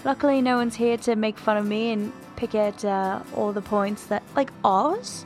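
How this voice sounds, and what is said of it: Attempted British accent. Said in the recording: “I just think my British has improved. So here I am. You know, exiting my comfort zone.”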